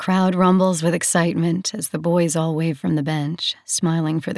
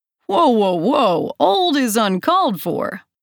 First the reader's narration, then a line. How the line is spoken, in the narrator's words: Shay yells at me